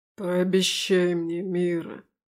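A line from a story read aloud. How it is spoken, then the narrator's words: Hoarse. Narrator (Russian): хрипло говорит он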